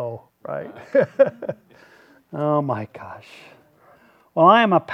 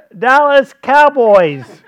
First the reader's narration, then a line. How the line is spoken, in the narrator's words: He yelled back